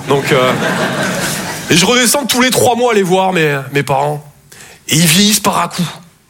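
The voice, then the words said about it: Toulouse French accent. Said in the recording (French): “Je viens de Toulouse à la base. Ouais, ça s'entend un peu... mon accent”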